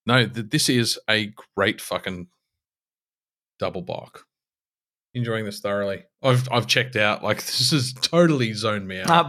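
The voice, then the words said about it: Slurred, drunken speech. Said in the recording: “I'm a bit pissy now, actually, now that I'm slurring my way through the review.”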